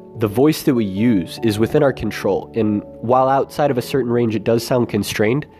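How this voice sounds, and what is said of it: Congested, stuffy voice. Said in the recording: “Right now it's difficult with my cold”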